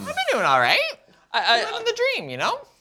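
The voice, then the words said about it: Voice pitched higher than usual. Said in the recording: “your voice just went up.”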